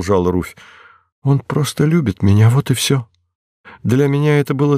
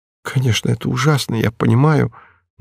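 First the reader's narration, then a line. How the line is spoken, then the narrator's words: Dejected voice. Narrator (Russian): начала Руфь упавшим голосом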